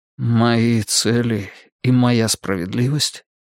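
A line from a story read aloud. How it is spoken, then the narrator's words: Muffled objection. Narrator (Russian): глухо возразил Олег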